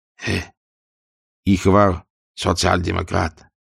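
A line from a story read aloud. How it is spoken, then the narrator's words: Quiet. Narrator (Russian): тихо говорит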